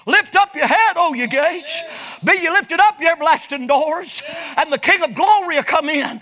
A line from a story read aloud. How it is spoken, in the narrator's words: hollers down to the gatekeeper